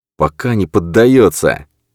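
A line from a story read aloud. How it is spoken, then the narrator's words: Angry hissing. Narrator (Russian): Эммануил злобно зашипел на нее, обнажив клыки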